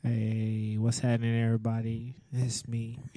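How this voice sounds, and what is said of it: Sultry, seductive voice. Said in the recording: “I don't know why you're using that sexy voice.”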